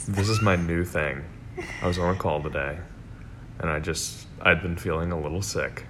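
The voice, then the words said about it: Unusually deep, dropped sick voice. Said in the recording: “has a scary voice ... I'd, like, have a little bit of a sore throat ... my voice just decided to drop”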